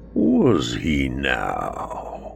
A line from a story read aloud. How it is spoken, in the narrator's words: purr